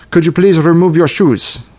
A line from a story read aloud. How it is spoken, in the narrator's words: barks in heavily accented English